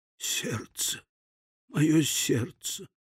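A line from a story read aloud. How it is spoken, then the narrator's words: Dying whisper. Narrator (Russian): успев только прошептать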